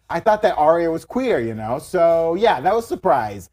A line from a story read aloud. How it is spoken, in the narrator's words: Maisie said in the video with an ironic chuckle